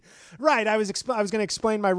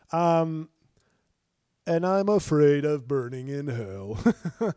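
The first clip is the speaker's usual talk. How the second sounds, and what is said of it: Imitates another person's voice. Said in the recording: “That's me as Ron Reagan ... my Ron Reagan impression”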